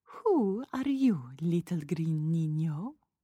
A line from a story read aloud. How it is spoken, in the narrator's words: Patsy asked